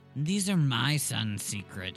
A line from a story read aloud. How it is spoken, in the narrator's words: she said wearily